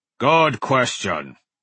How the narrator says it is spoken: rumbled

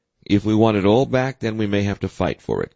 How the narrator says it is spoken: Cook said

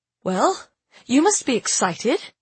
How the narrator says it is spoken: I said cheerfully to Ada

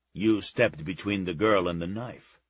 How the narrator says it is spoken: Czar said

